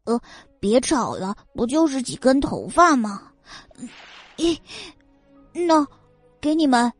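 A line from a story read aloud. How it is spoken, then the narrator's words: Muttering. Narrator (Chinese): 他嘟囔道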